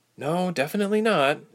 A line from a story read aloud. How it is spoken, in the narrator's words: Ilse sighed